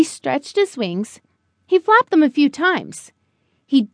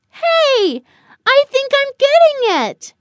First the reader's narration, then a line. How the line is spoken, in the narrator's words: Buddy yelled